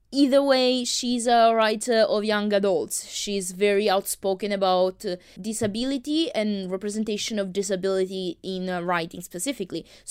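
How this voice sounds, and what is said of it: Thick foreign accent. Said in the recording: “I do have a thick accent”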